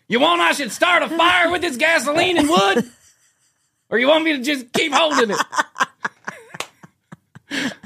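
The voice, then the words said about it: Yelling. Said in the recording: “Why do they always have to yell? ... Why are you yelling?”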